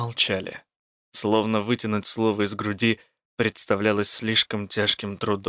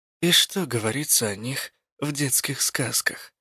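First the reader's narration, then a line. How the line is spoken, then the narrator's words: Quiet question. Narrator (Russian): тихо спросила я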